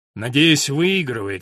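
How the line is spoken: Gloomy. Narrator (Russian): сказал Том мрачно

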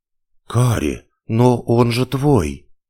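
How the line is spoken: Breathless exhale. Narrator (Russian): выдохнула я

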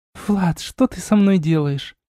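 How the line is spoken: Muffled whisper. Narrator (Russian): прошептала Арна, уткнувшись лицом мне в плечо

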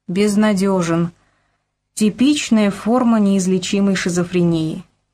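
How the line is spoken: Plain. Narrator (Russian): сказал Ромашов

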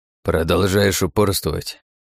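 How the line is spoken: Old man grumbling. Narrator (Russian): проворчал дед

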